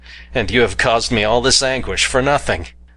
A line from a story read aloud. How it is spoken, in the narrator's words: I exclaimed